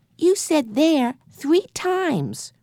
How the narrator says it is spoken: remarked Benny happily

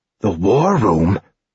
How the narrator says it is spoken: Aaron muttered

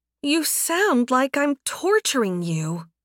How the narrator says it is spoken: Anna whined

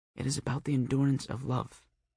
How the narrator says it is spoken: she whispered

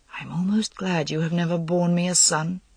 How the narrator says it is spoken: he added, almost in a whisper

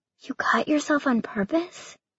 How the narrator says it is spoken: Emily whispered

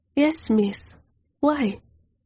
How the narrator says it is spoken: she questioned in a timid voice

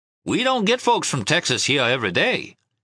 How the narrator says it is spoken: he said in his best hospitality voice

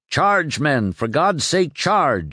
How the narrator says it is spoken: cried as he took the bullet that killed him

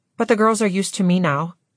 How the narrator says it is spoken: she said

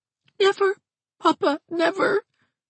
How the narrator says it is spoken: sobbed Mrs

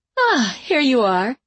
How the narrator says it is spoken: she said in the same bright voice she had used before to try to send them away

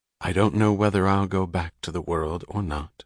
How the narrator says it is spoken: she said soberly, but her voice was trembling with a subdued violence which was pure gaiety

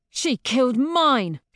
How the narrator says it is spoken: she snarls

